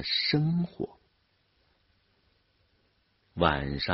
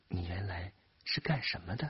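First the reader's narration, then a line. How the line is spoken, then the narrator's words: Soft question. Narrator (Chinese): 书记的老婆轻声的问他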